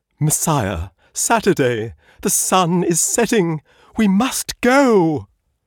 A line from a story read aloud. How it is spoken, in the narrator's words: A third, quavering voice said